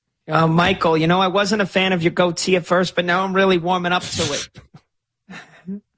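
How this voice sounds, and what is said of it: Jersey Shore-style character voice. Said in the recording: “Great impression... it turned your wife into like a Jersey Shore character”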